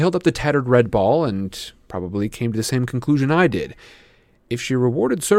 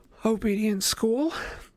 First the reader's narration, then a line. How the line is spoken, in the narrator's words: she said breathlessly, and I was surprised to see there were tears in her eyes